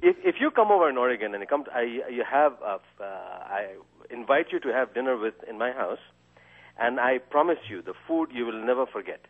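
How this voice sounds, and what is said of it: Pleasing accent, nice voice. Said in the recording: “you've got a very nice voice. You have a very intelligent delivery. You have a pleasing accent.”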